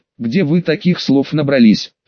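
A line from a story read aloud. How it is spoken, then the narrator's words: Giggling question. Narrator (Russian): Хихикая, спросил Чину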